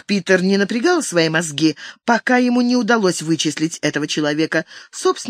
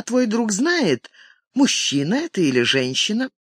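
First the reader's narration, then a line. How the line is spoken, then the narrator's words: Calm question. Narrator (Russian): спокойно произнесла Катарин, а затем спросила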